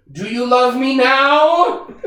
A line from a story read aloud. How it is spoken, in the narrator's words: red-faced at Filch, screaming